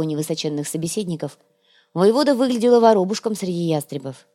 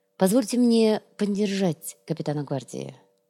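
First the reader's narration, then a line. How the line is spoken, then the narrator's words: Soft. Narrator (Russian): мягко произнес Сантьяго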